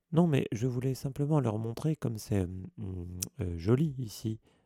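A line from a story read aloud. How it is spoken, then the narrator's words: Stammering. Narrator (French): balbutia Hermione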